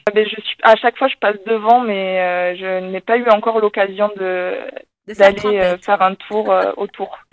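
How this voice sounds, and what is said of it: Light southwestern French sing-song accent. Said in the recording (French): “on entend quand même un petit accent ... je suis originaire du sud-ouest, c'est pour ça que j'ai un petit accent qui chante”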